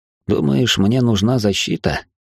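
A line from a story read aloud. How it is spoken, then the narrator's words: Sighing. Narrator (Russian): вздохнул я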